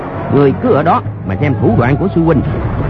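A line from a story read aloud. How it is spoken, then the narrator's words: Shout. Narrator (Vietnamese): Bèn quát lên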